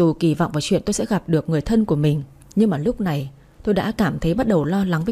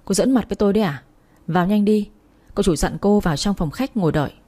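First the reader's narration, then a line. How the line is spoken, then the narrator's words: Young man, raised voice. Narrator (Vietnamese): Thanh niên kia cao giọng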